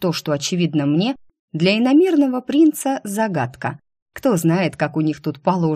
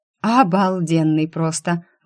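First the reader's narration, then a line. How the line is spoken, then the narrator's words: Breathless exhale. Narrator (Russian): выдохнула я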